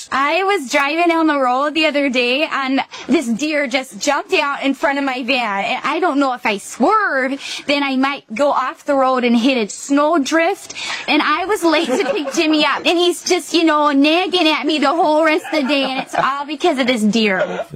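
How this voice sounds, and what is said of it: Minnesota soccer mom accent. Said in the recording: “her impression of a Minnesota soccer mom ... It's pretty good, actually.”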